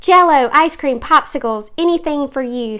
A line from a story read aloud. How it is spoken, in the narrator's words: said Mom